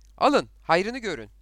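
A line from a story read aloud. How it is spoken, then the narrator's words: Shouting. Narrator (Turkish): diye bağırdı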